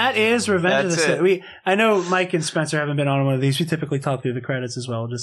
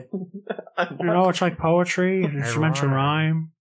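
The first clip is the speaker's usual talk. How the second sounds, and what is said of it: Imitates another person's voice. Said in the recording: “my George Lucas impression”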